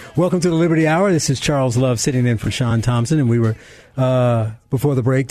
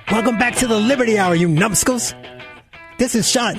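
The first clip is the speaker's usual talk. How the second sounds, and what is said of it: Imitates another person's voice. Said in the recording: “How was my Sean impersonation?”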